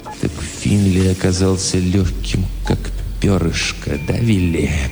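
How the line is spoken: Hollow, muffled. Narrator (Russian): глухо сказал Хэмпхилл

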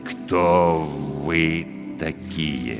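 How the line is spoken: Quiet, careful words. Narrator (Russian): Негромко, тщательно подбирая слова, спросил он

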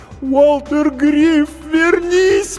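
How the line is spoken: Sobbing cry. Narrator (Russian): прорыдала она

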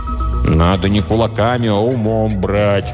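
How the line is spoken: Dejected reply. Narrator (Russian): уныло отвечал стабилизатор

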